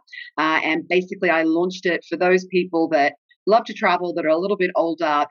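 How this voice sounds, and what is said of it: Australian accent. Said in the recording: “I can hear a Australian accent”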